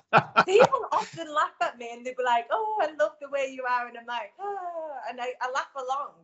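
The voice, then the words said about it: Northern English accent. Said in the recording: “it's the Northern thing ... It must be my accent.”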